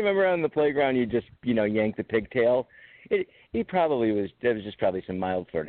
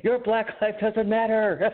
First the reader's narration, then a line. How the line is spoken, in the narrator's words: I just screamed at her